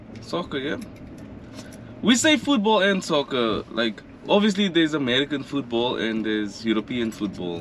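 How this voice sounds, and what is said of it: South African accent. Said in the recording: “your accent is a little bit different than the other ones ... more like a UK, Irish ... accent ... But she was from South Africa”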